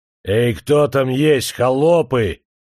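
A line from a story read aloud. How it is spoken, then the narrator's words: Deep hoarse bass voice. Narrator (Russian): Пробасил он хриплым голосом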